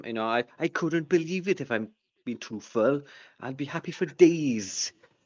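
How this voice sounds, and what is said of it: Put-on Welsh accent. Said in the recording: “That's my Welsh accent”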